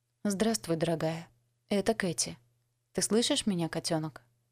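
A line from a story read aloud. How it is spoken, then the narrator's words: Soft, after deep breath. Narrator (Russian): Я сделала глубокий вдох и мягко произнесла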